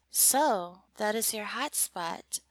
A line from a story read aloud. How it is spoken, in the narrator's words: I asked China in a calm tone of voice